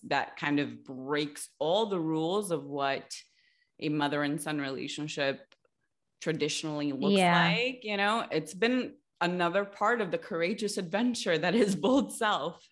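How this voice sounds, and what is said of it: Diluted mixed New York accent. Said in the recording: “I can't not hear it. I hear it. You're in your accent. ... So my accent is actually a combination. ... It's very diluted. Yeah. It sounds like it's a mixture. ... There's New York, there's Italian, there's Spanish in there. There's like the like Latino influence.”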